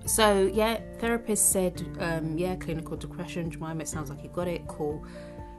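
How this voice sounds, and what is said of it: British London accent. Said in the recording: “in case you can't tell by the accent, I do live here in the UK, London to be precise”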